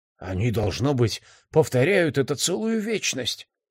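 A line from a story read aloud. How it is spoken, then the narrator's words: Awed, frightened whisper. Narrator (Russian): прошептал Алек, с восхищением и ужасом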